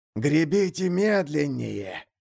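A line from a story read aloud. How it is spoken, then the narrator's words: Hoarse whisper. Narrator (Russian): хриплый шепот с кормы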